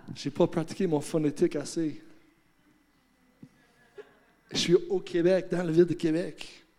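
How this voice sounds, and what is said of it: Heavy foreign accent in French. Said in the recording (French): “J'ai un gros accent en français.”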